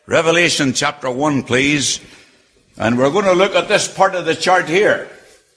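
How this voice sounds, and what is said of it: Speaks with a noticeable accent. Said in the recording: “I don't like your accent ... if you don't like my accent”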